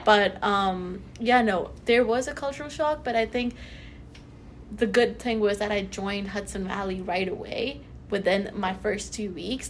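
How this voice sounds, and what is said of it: Slight non-native English accent. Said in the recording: “The accent was still there, which I think is still here a little bit.”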